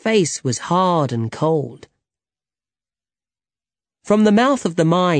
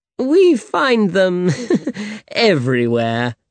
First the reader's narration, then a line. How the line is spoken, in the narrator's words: laughed